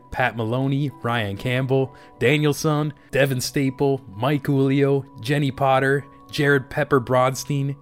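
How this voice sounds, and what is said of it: Strained, low-energy voice. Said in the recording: “I feel like I'm losing my voice. Usually I put a little more energy into that.”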